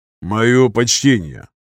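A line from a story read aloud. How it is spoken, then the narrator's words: Low bass voice. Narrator (Russian): Низким басовитым голосом произнес он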